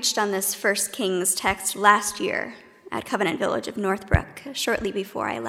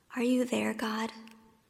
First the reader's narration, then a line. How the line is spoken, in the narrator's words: Elijah and our psalmist David, both of them whisper